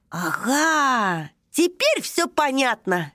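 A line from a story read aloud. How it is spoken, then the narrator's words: Joyful exclamation. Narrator (Russian): радостно вскричал Таймио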